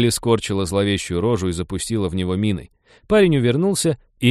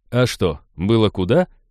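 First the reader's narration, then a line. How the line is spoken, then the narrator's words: Chuckling. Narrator (Russian): хохотнул Хэл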